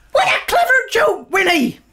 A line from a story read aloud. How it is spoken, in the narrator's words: They cried